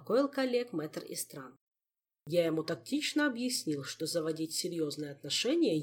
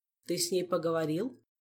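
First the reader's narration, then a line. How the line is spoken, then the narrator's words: Plain question. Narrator (Russian): спросил Хирон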